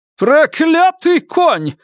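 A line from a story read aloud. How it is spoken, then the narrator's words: Yelling. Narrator (Russian): завопил Джоби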